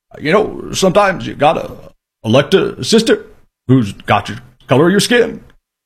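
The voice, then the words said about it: Imitates another person's voice. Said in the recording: “terrible Obama impression”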